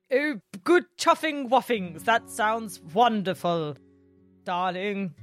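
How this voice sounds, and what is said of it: Put-on posh English accent. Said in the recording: “Banks is English, so you can do your fancy English accent.”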